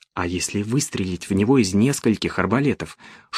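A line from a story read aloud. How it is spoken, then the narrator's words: Whispered question. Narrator (Russian): шептом спросил Пауло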